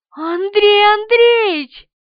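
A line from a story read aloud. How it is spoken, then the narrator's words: Squeaky. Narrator (Russian): пискнула она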